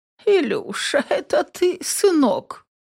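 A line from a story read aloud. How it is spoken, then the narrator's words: Feeble dying grandmother's voice. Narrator (Russian): умирающим голосом спрашивает Аглая Рудольфовна, моя бабушка по материнской линии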